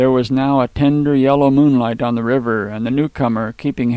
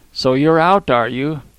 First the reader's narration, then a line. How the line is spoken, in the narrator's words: replied dryly